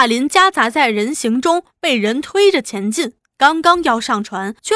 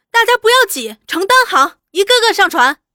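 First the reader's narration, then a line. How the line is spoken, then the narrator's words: Calling out. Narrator (Chinese): 又听得阿玉在叫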